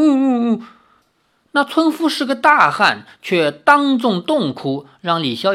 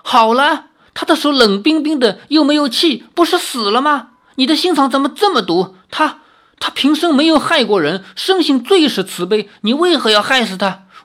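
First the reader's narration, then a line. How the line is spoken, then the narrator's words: Grieving cry. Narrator (Chinese): 那村夫悲哀的叫道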